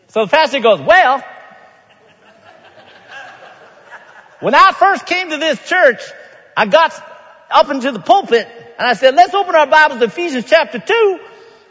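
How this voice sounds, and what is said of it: Put-on Southern accent. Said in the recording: “I can't tell the story without a Southern accent.”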